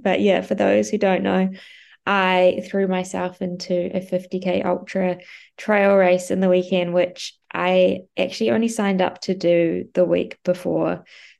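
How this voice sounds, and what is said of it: Congested, blocked-up cold voice. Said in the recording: “I'm feeling a little bit under the weather, as you can probably hear in my voice. ... I feel like I'm a bit blocked up. I think I might have a bit of a cold”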